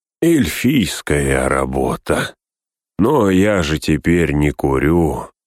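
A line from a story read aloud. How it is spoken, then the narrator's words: Sigh. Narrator (Russian): вздохнул он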